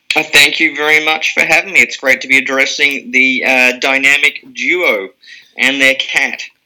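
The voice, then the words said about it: Australian accent. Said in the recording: “the Australian accent is very soothing to animals”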